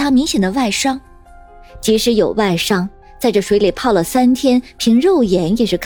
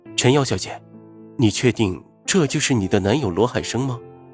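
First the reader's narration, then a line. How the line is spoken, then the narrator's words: Soft question. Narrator (Chinese): 云峰轻声问道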